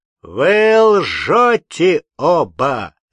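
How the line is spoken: Thunderous shout. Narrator (Russian): закричал громовым голосом Кирша

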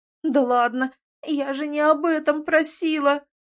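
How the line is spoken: Groaning. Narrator (Russian): Простонала

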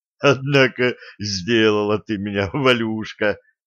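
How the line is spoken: Strained after laughing. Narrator (Russian): отсмеявшись, выдавил из себя Денис

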